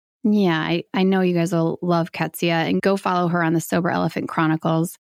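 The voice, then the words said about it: Hoarse, worn-out voice. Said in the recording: “My voice is just cashed. It sounds like I was out partying all night, cigarettes ... that never-ending cold, flu, just crud stuff”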